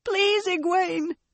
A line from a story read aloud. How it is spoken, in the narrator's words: It was a squeal, and she was too terrified to care